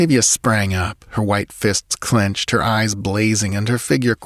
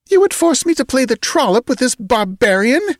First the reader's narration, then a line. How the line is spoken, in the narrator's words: exclaimed